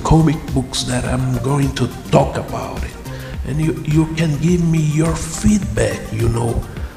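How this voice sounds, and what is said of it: Strong Brazilian accent. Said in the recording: “I know I have a crazy accent. I'm an author from Brazil”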